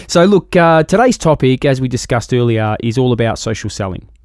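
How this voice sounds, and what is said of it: Australian accent. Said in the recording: “my Aussie accent ... I love the accent”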